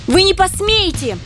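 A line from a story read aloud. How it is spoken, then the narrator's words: Sudden high-pitched shriek. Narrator (Russian): неожиданно тонким голоском заверещала Лия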